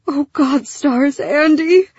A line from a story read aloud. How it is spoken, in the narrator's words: Lyra moaned